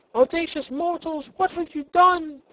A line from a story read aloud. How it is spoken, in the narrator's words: one of the roses cried aloud